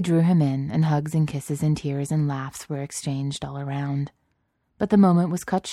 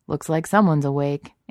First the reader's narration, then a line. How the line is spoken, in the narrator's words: Anakin laughed